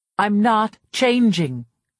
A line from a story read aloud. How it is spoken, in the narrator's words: I shouted it, an unexpected rage rising inside of me